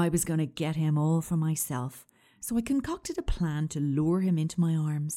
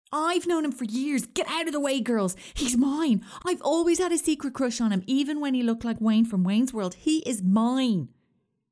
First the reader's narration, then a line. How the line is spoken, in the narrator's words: shouting